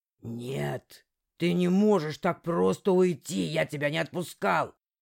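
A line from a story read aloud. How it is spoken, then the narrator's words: Fading angry growl. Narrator (Russian): рычал темный, но его злобный рык начал постепенно отдаляться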